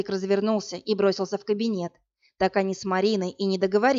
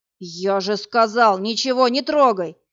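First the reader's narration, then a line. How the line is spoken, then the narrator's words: Roar. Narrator (Russian): взревел Власик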